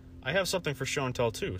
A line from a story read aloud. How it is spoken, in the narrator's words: said the teacher